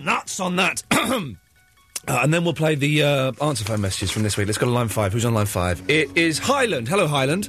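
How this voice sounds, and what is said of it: Strained, failing voice. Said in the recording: “My voice is going, because I've been shouting.”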